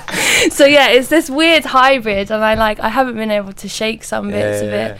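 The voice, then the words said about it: Mixed London and West Country accent. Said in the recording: “you do have a strange accent ... I've got bits of a London accent, but there's bits of a like my country accent that I can't shake. Like I say past or grass.”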